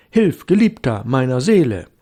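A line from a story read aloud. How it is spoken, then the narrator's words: Call. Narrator (German): ruft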